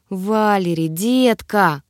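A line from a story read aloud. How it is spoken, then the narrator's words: Woman, breathless exhale. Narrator (Russian): выдохнула женщина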